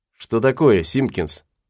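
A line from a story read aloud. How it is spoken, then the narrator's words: Plain. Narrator (Russian): спросил Гатлинг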